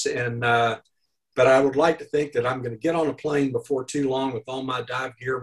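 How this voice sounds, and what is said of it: Arkansas Southern American accent. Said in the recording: “My accent is from Arkansas”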